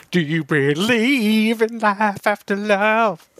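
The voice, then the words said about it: Poor singing impression of another person. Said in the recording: “terrible Cher impression”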